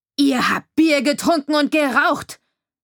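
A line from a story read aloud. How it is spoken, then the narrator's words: Sudden bellow. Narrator (German): brüllte der Sheriff unversehens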